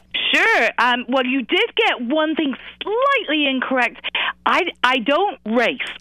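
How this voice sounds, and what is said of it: British accent. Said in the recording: “I love your British accent”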